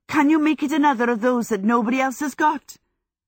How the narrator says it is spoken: both boys said eagerly

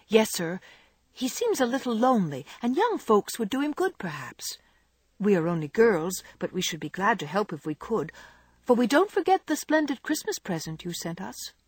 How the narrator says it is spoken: said Jo eagerly

